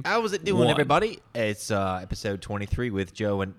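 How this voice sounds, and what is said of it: Put-on Australian accent. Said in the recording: “I'm talking Australian. ... This is what you think Australian is?”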